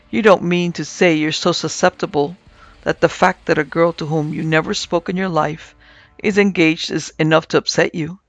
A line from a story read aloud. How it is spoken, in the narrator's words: I said, laughing